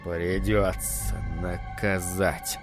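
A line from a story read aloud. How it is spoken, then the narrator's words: Grumbling. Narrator (Russian): бурчал Джек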